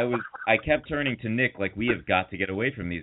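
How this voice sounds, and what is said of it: Usual voice. Nothing is said of it.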